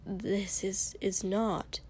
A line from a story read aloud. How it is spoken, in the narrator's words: Ida, who'd been standing behind him all night, suddenly muttered